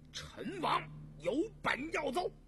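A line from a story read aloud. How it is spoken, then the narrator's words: Loud. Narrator (Chinese): 果亲王和简亲王 大声说道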